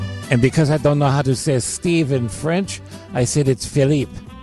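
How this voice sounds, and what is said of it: Usual voice. Nothing is said of it.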